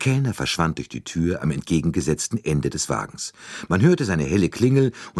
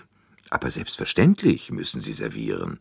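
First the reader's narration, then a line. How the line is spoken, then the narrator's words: Plain. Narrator (German): sagte er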